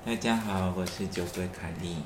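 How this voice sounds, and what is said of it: Affected soft, gentle quiet voice. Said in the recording (Chinese): “为什么要装装温温温温柔儒雅？...我是一个巨星，都讲话要很小声。”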